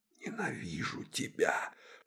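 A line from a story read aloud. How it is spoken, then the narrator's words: Whispered. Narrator (Russian): шептала она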